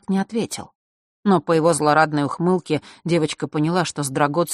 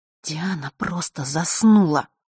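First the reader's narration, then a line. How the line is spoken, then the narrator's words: Through gritted teeth. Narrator (Russian): процедила в ответ Василиса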